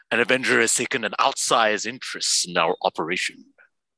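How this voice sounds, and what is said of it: Impersonates a villain character's voice. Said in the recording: “That's your best impersonation yet, I think.”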